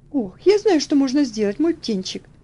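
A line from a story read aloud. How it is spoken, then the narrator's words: Sudden exclamation. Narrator (Russian): внезапно воскликнула тетушка Хлоя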